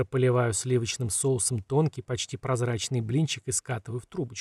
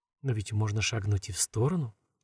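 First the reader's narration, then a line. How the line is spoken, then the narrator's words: Quiet remark. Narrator (Russian): тихо замечает Лэнни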